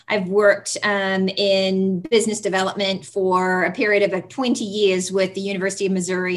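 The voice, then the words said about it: Speaks with a non-native accent. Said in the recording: “beyond having an accent”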